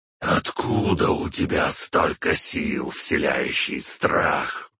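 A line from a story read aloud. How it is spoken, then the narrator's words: Wheezed. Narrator (Russian): просипел он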